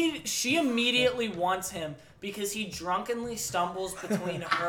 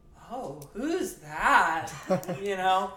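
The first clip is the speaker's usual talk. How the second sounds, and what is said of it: Weird flirty girl character voice. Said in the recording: “That was your weirdest impression yet.”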